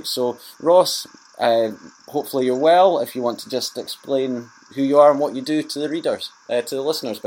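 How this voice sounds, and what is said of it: Scottish accent. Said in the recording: “fellow Scotsman, if you haven't already told from my accent”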